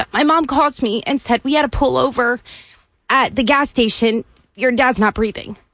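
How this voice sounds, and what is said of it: Choked-up, emotional voice. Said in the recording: “I didn't think I was getting choked up.”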